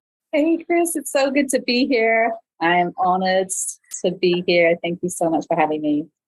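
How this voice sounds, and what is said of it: English accent. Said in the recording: “your beautiful English accent ... You're so wonderful to listen to”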